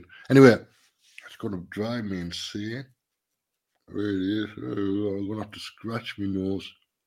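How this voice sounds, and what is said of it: Congested voice, deeper than normal. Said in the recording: “I've got a little bit of a cold. I've got a bit of a sinus thing going on at the moment, which means my voice is a little bit deeper than normal.”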